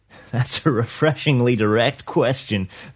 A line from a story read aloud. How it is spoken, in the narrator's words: the Rainmaker chuckled